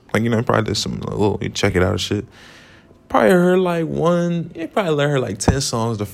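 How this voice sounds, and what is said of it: Usual voice. Nothing is said of it.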